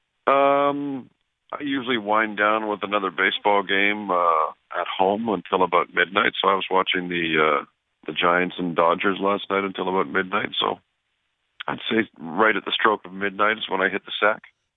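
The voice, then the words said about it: Tired, just-woken-up voice. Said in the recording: “You sound tired. You sound like you just woke up.”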